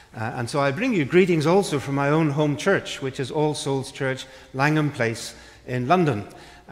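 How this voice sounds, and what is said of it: Northern Irish accent. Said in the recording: “the accent that you're hearing now doesn't come from these parts ... born and brought up in Northern Ireland ... Belfast, Northern Ireland”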